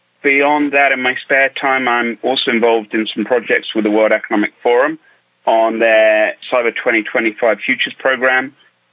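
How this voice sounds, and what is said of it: British accent. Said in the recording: “obviously being based in the UK, if you couldn't tell by the accent”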